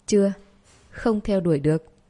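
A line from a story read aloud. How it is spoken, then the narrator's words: Pained laugh after silence. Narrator (Vietnamese): Lộ Tinh Vũ càng im lặng lâu hơn, sau đó đau khổ bật cười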